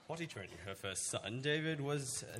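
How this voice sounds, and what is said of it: Dramatic over-the-top reading voice. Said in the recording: “do a normal voice. ... No, you said to do a dramatic.”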